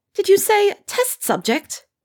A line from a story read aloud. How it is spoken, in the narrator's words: her voice became shrill